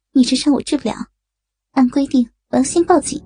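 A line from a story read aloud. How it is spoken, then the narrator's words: Startled, cold. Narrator (Chinese): 白云一惊，冷冷地说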